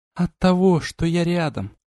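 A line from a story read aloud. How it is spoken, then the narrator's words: Goddess answering softly. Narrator (Russian): мягко ответила богиня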